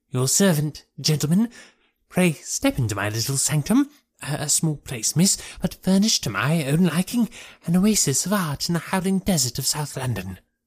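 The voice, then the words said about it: Thin, high-pitched voice. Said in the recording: “He kept repeating in a thin, high voice.”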